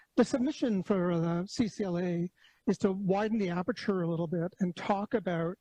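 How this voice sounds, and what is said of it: Slightly hoarse voice. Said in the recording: “I've got a bit of a hoarse throat”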